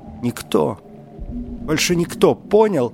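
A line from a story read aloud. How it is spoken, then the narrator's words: Sobbing. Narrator (Russian): зарыдала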